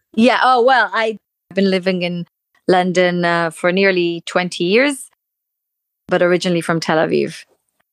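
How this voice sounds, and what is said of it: British-sounding non-American accent. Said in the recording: “accent, which is not Brooklyn or Los Angeles ... that sounds like a British accent”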